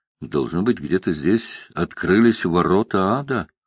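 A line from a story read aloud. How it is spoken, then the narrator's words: Soft whistle, then speaking. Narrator (Russian): Бобби тихонько присвистнул и сказал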